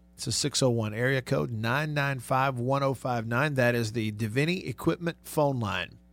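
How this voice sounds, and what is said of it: Hoarse, strained voice. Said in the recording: “Kind of losing my voice”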